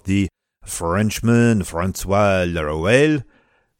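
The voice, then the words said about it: Exaggerated French accent. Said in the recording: “that's my terrible French accent”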